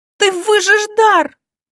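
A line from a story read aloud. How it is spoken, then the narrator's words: Shout. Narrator (Russian): крикнула Илона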